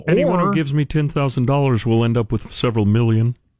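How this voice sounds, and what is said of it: Mocking low-pitched imitation of another person. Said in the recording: “this mocking voice of Elizabeth Holmes ... It's a little lower, I think ... I got to get lower”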